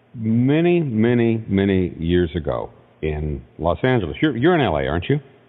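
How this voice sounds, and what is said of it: Deep, resonant radio voice. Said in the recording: “that beautiful, you know, that nice deep radio voice”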